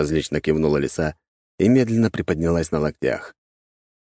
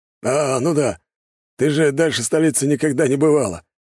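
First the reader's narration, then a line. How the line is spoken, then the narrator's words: Snort. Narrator (Russian): хмыкнул Глеб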